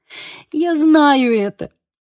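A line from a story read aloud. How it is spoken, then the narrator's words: Sob. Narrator (Russian): всхлипнула я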